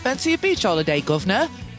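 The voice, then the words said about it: Affected British accent. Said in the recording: “affected British accent”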